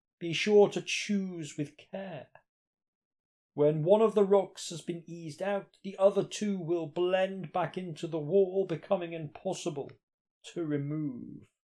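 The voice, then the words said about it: Ghostly Jacob Marley voice. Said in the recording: “whenever you do a ghost, you always end up doing a Jacob Marley voice.”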